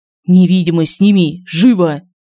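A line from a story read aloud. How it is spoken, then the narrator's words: Hissed through teeth. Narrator (Russian): прошипел Семен сквозь зубы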